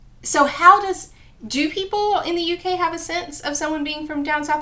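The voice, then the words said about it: American Southern accent. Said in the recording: “I clearly have an American accent. Yeah. But when my southern accent confuses sometimes confuses people”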